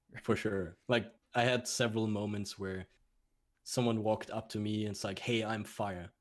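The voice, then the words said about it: German accent. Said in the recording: “You got a German accent.”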